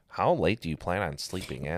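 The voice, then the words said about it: Mocking girly voice. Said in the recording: “you do a girl voice,... you sound stupid”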